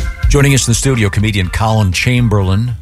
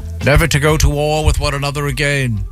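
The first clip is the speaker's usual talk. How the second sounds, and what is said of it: Weak put-on British accent. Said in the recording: “kind of a weak British accent”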